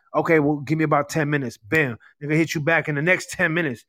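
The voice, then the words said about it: Slight New York accent. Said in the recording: “I'm hearing a little bit of a New York accent”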